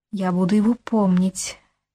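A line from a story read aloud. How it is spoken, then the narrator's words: Barely audible solemn vow. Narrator (Russian): чуть слышно сказала она, будто давая самой себе некую клятву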